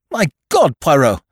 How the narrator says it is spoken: I cried

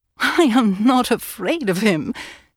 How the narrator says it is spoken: she laughed

